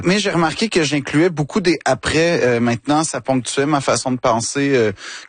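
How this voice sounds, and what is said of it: Québécois French accent. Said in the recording (French): “je fais vraiment attention à ne pas perdre mon accent ... je tiens à rester québécois”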